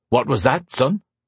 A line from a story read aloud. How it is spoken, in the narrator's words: his father asked